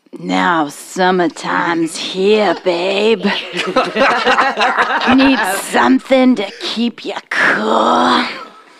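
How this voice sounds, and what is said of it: Creepy old man voice. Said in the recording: “creepy old man voice”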